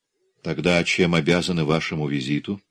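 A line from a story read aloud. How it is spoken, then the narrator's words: Calm question. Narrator (Russian): спокойно спросил Габор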